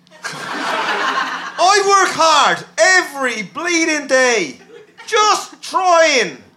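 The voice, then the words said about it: Put-on Irish accent. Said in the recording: “That Irish accent is very good.”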